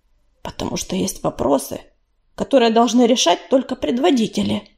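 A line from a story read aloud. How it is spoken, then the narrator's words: Quiet. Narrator (Russian): так же тихо ответил ей Ежевика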